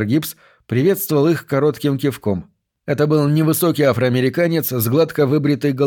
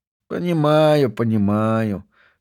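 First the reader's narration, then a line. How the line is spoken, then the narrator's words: Unhappy mumble. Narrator (Russian): с несчастным видом пробормотал Пак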